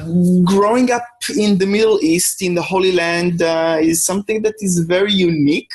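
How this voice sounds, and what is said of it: Israeli accent. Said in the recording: “I was born in a small village on the outskirts of Jerusalem, Israel, which is where my accent is from.”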